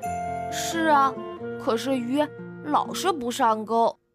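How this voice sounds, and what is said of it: Quiet, muttered complaining voice. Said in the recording (Chinese): “小声的抱怨说”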